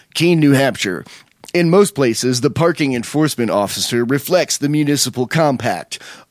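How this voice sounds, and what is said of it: Dramatic movie trailer narrator voice. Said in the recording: “I'm gonna get rid of the in a world movie trailer voice.”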